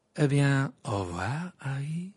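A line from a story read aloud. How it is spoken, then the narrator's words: Cheerful call. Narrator (French): lança Rita Skeeter d'un ton joyeux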